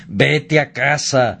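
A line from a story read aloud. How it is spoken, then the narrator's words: Grunting pigs. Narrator (Spanish): los propios puercos gruñían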